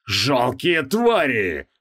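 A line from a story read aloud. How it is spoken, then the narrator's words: Roar. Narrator (Russian): взревел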